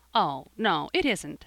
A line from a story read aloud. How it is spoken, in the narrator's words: said Jasper, smiling brightly